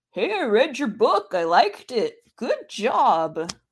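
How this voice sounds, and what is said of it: Uncanny impression of Jack Kirby. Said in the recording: “That's actually an uncanny impersonation of him ... A professional impersonator ... that glorious impression”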